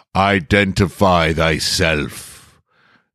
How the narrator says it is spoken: the grand wizard boomed

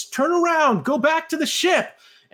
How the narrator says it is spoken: the passenger in the back shouts

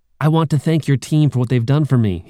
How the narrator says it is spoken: said

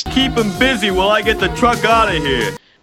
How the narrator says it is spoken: Dagger yells over to Rax

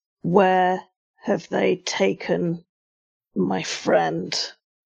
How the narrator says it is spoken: Very close to his neck, whispering into his ear

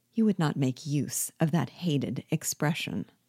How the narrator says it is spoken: observed Rigaud quietly

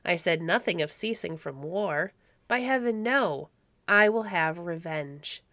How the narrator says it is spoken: cried the Baron roughly

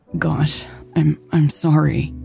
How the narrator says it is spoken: Lex stammered

